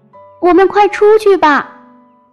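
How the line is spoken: Shouting. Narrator (Chinese): 弗洛格大叫

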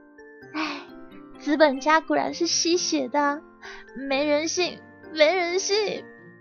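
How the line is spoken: Long sigh. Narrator (Chinese): 他仰天长叹

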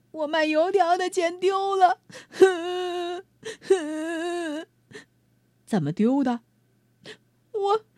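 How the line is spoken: Child sobbing. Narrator (Chinese): 小孩呜呜哭着说

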